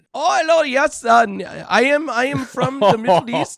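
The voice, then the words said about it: Put-on Middle Eastern accent. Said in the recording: “I can only do one accent ... That's the only accent I could do. See how drastic that was?”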